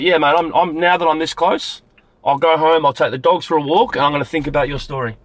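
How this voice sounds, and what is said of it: Australian accent. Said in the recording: “But you're Aussie. You're Aussie. ... you have a very good accent. ... different ... Different from ... the normal.”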